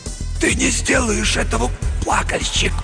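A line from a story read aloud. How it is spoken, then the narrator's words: Whispered. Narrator (Russian): прошептал Винсент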